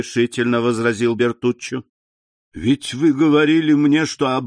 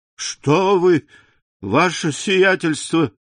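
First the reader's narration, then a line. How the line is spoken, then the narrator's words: Contemptuous exclamation. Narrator (Russian): воскликнул Бертуччо с презрением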